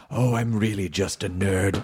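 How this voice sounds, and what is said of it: Sultry breathy female voice. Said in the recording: “in that sultry voice.”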